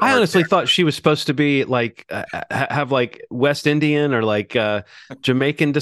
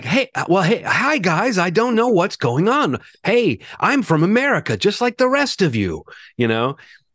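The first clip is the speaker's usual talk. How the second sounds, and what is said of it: Ewan McGregor's awkward American accent. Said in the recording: “Ewan McGregor's American accent is very much like ... sometimes great actors just don't nail it”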